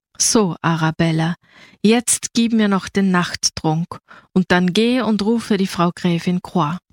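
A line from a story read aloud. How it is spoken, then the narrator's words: Calm, regal. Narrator (German): Vollkommen ruhig und überaus hoheitsvoll sagte sie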